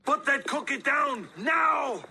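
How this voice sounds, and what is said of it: Arnold Schwarzenegger impression. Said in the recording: “a really good Schwarzenegger impersonation ... A lot of people think that's Arnold.”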